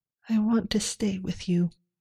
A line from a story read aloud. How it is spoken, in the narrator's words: she murmured